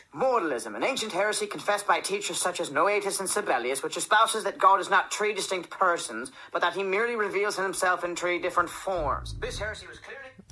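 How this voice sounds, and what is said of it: Irish accent. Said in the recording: “if I had a really good Irish accent, I would say”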